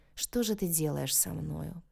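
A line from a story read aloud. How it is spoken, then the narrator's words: Mumbling man. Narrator (Russian): пробормотал мужчина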